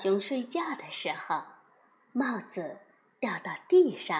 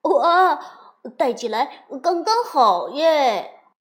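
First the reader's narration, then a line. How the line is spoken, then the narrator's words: Joyful loud cheer. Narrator (Chinese): 小熊高声欢呼着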